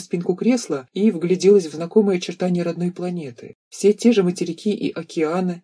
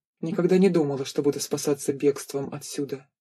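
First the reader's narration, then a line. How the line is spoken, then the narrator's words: Quiet remark. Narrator (Russian): заметила негромко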